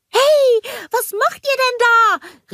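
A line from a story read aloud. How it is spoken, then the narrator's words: Called after them. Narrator (German): rief Olaf ihnen hinterher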